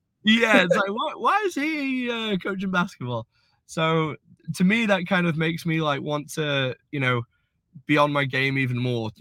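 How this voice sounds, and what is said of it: English accent. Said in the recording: “with an English accent”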